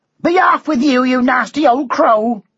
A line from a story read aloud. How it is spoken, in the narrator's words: she shouted